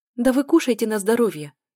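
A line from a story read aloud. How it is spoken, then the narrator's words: Hurried interjection. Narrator (Russian): торопливо влезла я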